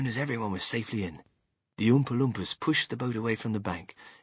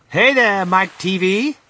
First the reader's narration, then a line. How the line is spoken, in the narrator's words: shouted Mr